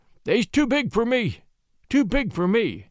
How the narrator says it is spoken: repeated thickly

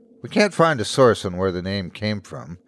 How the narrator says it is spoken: he sighed

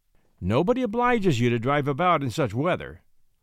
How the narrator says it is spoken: said Semyon

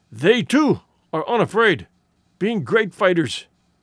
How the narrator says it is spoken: he wheezed

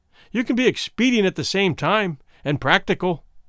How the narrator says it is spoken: Womble said sharply

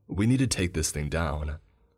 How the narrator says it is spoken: Braxton said nervously

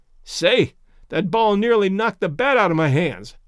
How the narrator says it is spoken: panted Sam

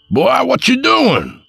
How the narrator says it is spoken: Papa yelled

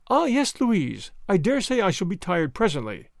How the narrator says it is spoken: said Marguerite, kindly

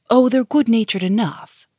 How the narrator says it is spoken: said Sonia

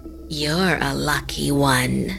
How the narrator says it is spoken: the woman said in a creepy voice

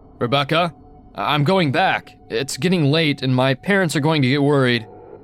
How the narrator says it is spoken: I was getting scared, so I called out

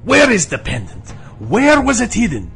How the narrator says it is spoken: Serranus suddenly blurted out loud, spittle flying from his lips

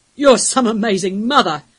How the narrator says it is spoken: one of the older wolves bellowed at her

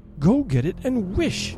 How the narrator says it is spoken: cried his wife, quivering with excitement

